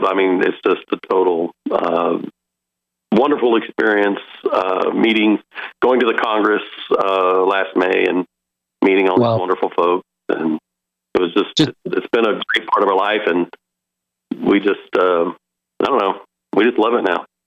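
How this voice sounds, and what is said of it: Good radio voice. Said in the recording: “this guy does have a good radio voice.”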